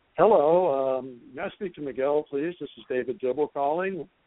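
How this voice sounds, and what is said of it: Formal business phone voice. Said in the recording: “put on my best business voice.”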